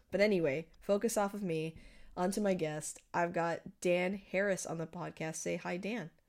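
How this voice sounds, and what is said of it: Voice sounds a little off, unwell. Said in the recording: “I know that I sound a little bit off ... I am recovering from COVID ... I sound a little different”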